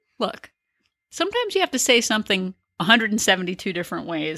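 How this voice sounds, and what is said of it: Serious voice. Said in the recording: “That's her I'm getting serious voice”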